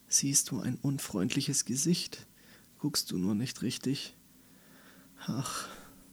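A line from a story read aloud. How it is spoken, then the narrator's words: Very weak faint voice. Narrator (German): Die Stimme von Clarence war so schwach geworden, dass Andi ihn kaum noch hören konnte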